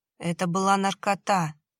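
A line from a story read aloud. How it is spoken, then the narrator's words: Gloomy objection. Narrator (Russian): мрачно возразил Кирилл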